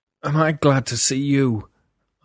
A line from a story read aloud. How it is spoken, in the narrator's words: Arnold cried, voice harsh